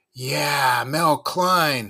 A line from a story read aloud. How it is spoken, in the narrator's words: I shouted